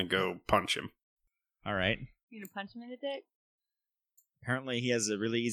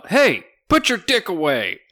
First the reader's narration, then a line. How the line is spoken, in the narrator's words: Doc yells out